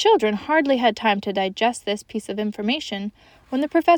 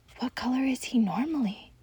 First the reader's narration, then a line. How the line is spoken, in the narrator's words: Lindy whispered